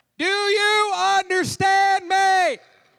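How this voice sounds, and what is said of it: Exaggerated loud shouting. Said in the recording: “you think they're deaf... You ain't got to shout it.”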